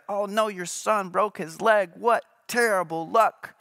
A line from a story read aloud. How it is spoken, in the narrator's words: the neighbors cried out